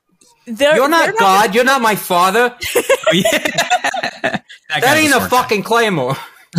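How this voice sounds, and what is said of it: Put-on, hard-to-place accent. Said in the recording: “I don't know what the accent that was.”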